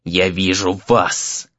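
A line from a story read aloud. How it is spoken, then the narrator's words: Creature hissing. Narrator (Russian): прошипело существо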